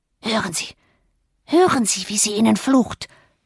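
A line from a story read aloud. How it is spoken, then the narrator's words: Whisper. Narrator (German): flüsterte Joseph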